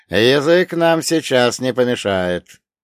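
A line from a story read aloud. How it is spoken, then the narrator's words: Loud, breaking silence. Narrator (Russian): Голос капитана прозвучал громко, нарушая звенящую тишину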